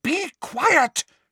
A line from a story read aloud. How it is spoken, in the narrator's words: shouted Hermione